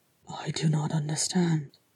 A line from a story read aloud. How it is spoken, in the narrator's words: Thorin said, and his voice was barely a whisper